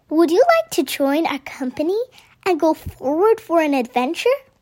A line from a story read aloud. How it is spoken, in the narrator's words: The bird tweeted happily once again